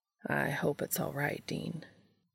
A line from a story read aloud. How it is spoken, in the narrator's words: he said quietly, looking unsure